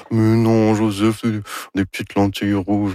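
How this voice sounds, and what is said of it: Imitates another person's voice. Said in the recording (French): “Ça, c'est mon imitation de Anne Dorval... C'est très réussi”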